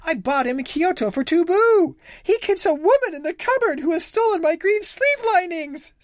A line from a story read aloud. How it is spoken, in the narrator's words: sobbed the wife